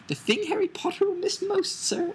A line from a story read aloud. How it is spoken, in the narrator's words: squeaked Dobby